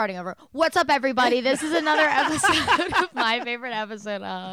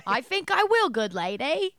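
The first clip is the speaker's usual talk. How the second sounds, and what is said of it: Put-on Cockney British accent. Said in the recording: “British. Oh, we're British. It's a Cockney accent.”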